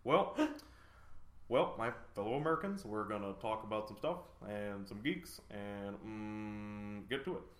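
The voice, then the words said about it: Barack Obama impression. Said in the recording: “Can you do Barack Obama?”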